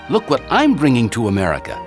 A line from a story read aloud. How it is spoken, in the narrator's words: Benny exclaimed